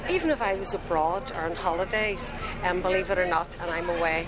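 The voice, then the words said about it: Belfast accent. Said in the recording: “a gentleman here who's from Belfast ... if you're born and reared in Belfast, your Belfast accent is part of your identity ... We have a Belfast accent”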